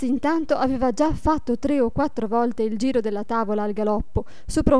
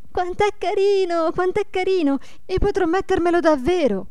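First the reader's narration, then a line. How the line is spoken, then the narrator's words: Excited repeated shouting. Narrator (Italian): gridando ad ogni momento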